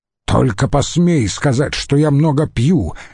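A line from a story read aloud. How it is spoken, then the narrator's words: Barking snap. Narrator (Russian): рявкнул Катон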